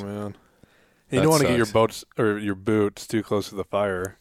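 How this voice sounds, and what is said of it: Put-on Canadian accent. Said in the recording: “I don't know why I'm talking in a Canadian accent all of a sudden.”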